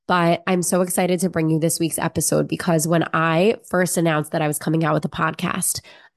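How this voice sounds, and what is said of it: Nasal, congested voice. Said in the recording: “I've been a little under the weather recently. Maybe you hear it in my voice. ... the nasally and like somewhat congested voice”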